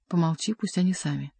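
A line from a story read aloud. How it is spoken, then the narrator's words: Whisper. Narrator (Russian): Бюсси шепнул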